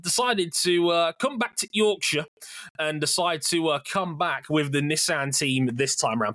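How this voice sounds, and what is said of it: Poor put-on Yorkshire accent. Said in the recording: “Please forgive my horrible idea of a Yorkshire accent.”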